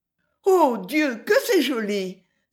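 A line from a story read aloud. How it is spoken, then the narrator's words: Fervent cry. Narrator (French): s'écria Louisa avec ferveur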